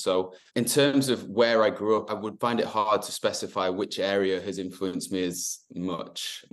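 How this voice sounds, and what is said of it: General northern English accent. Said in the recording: “accent is certainly not clear enough to know where I'm actually from ... So it's just general north.”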